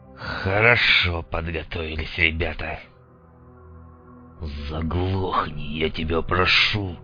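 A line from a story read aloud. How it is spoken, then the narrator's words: Fierce growling whisper. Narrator (Russian): Диким шепотом рыкнул резаный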